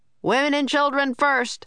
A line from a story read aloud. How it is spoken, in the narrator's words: someone shouted